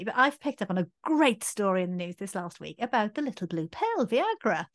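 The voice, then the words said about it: Welsh accent. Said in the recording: “you know I'm Welsh. Yeah, if the accent doesn't give it away”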